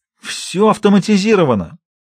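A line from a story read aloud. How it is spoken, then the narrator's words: Exclaiming. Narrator (Russian): воскликнул Джеки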